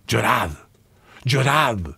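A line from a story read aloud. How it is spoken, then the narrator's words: Whimpering, dying voice. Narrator (Spanish): llorisqueaba con voz expirante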